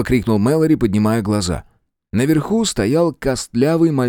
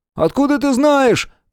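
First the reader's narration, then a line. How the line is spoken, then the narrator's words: Shouting. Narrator (Russian): крикнул Том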